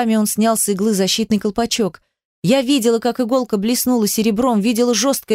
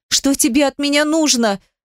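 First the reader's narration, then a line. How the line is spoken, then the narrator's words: Sobbing. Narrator (Russian): Зарыдала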